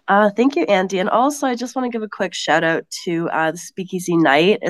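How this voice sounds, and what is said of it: Non-English accent. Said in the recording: “people might guess by your accent. You're not English”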